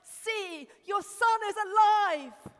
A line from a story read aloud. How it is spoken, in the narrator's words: cried out in joy and triumph